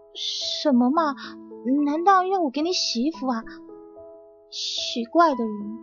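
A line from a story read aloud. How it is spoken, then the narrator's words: Displeased pouting mutter. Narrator (Chinese): 杜新白起先是不高兴的，撅着嘴嘟囔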